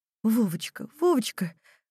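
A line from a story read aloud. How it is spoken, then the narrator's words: Flustered mother muttering. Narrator (Russian): растерянно бормотала мать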